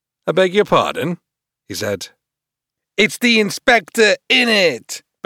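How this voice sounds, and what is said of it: Loud, aggressive bad gangster voice. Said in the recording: “The standard lilting dwarf voice had been swapped for something much louder and more aggressive, and which was doing a really bad impression of a Los Angeles gang member”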